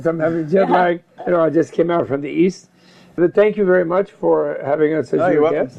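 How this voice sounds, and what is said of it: Hoarse voice. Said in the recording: “My voice is going hoarse.”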